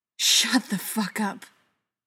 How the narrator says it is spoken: Joe hissed

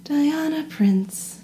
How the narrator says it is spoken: she murmured dreamily

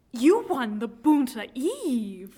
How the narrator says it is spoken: Luke exclaims

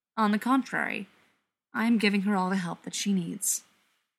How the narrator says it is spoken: replies calmly

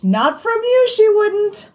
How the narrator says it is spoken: he cried

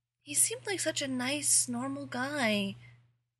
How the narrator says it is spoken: Angel said sadly

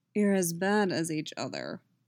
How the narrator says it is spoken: Geralt says dryly

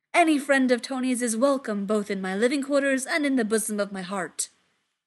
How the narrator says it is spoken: he booms

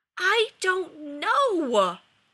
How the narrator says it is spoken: yelled Rodney, anguished

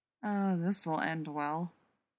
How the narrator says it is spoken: John muttered to Rodney

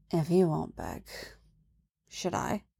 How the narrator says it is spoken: whispers

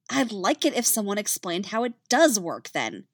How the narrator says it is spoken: she snapped

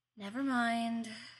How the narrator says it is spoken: sighed

